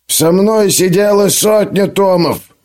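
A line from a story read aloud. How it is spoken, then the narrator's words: Old man's growl. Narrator (Russian): прорычал старый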